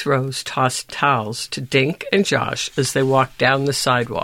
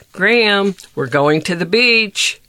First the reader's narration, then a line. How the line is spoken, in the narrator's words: yelled